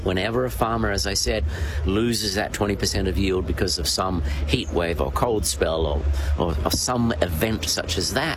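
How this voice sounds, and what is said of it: Australian accent. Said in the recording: “People will know from your accent that you're Australian”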